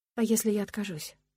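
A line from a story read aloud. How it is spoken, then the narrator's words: Quiet question. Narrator (Russian): спрашиваю я тихо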